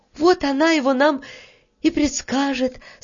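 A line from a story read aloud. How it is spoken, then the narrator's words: Relieved sigh. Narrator (Russian): с облегчением вздохнула Таня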